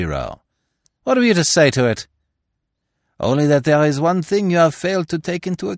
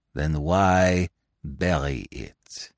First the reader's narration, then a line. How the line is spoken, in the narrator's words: He asked softly